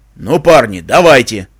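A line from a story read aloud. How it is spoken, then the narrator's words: Barked gruff shout. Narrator (Russian): рявкнул палач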